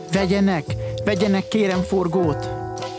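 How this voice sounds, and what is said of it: Pleading, begging voice. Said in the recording (Hungarian): “Szólt könyörgő hangon”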